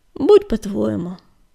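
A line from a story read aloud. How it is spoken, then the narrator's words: Sighing. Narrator (Russian): вздохнул Огнегриф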